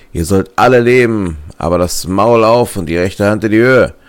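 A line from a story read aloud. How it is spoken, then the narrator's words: Calling out. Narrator (German): rief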